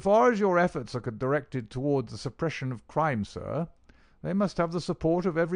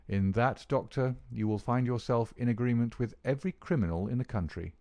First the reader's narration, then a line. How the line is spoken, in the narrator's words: said my friend quietly